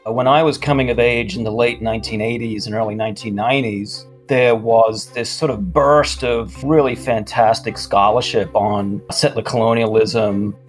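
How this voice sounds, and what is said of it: Australian accent. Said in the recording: “was Australian ... Don't you just love that accent?”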